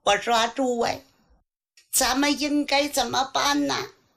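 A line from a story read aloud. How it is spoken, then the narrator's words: Terrified question. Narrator (Chinese): 马叔毛吓得他呼爹喊娘啊，对手下人问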